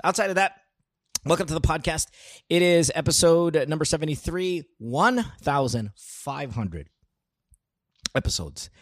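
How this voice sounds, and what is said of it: Voice sounds bad, off today. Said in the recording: “I apologize for my voice. It's kind of bad today”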